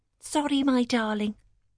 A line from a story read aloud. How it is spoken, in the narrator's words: she muttered